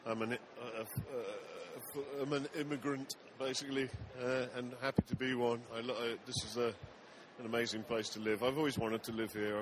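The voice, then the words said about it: Slight English accent. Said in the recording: “you have a little bit of an accent ... Originally from England.”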